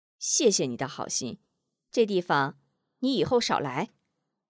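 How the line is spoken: Cold. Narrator (Chinese): 张秀秀冷冷道

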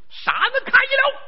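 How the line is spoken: Deep-chested yell. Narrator (Chinese): 有一主抖丹田喊了一嗓子

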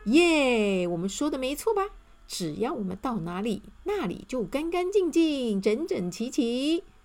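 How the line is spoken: Cheerful, beaming. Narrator (Chinese): 整齐先生和清洁先生笑眯眯地说

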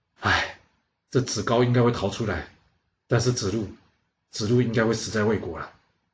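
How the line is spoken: Sad sigh. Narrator (Chinese): 孔子他难过的叹了口气，说

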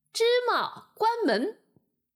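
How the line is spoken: Leader shouting. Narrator (Chinese): 一个头领模样的人又叫道

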